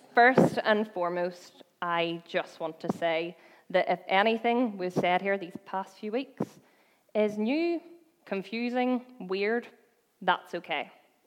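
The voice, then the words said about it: Belfast Northern Irish accent. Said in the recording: “the dodgy accent ... from Belfast”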